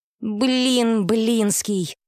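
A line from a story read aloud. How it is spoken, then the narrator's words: Drawn-out, gloomy. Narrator (Russian): протянула подопечная, мрачно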